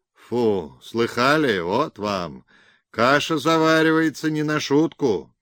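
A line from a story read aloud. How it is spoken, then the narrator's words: Panting hoarse bass. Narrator (Russian): Отдуваясь, проговорил хриплым басом тучный директор пограничной таможни Обухов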